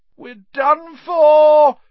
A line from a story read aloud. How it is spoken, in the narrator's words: he moaned as the ceiling sagged